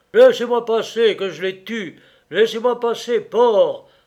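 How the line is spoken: Harsh barking. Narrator (French): aboya Chrysler, écueillement

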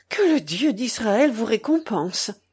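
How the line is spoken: Relieved exclamation. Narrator (French): s'écria le Juif grandement soulagé

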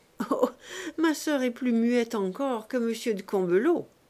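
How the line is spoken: Laughing young man. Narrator (French): dit le jeune député en riant

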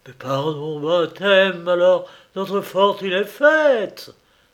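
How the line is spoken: Exclaiming. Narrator (French): s'écria-t-il

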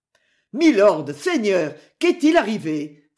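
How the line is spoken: Exclaiming. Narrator (French): s'exclama Geoffroy

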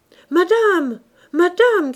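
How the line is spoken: Shouting. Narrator (French): cria Clémence

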